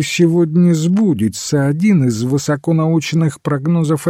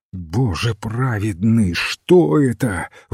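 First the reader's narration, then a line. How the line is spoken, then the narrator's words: Breathless exclamation. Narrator (Russian): выдохнул сэр Сесил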